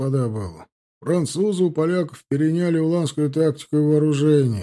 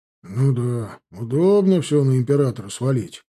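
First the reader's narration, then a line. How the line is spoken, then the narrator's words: Grumbling. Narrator (Russian): буркнул едущий позади Новицкий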